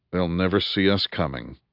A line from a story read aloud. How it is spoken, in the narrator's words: murmured Kuga